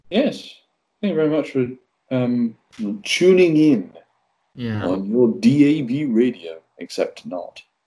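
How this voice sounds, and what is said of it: Polished radio presenter voice. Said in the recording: “You've got a good radio voice”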